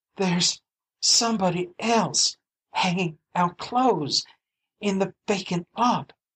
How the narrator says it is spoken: she gasped

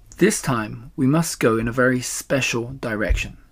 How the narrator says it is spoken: said Mr

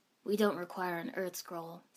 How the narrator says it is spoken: Sasuke said flatly

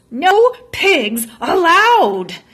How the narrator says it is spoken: Eugenia shouted

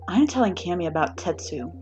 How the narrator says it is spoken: Mina says under her breath

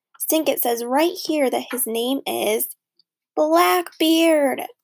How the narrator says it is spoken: Judy and Stink both screamed at the same time

